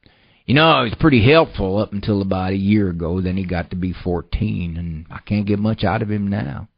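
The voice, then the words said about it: Put-on rural farmer accent. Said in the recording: “Sorry for the farmer accent there.”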